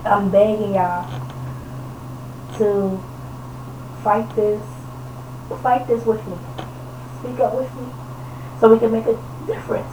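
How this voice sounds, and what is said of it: Hoarse, fading voice. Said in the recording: “my voice is going out.”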